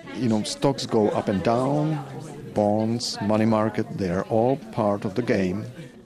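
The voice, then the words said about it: Czech accent. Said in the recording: “If you're wondering about the accent, ... is from the Czech Republic.”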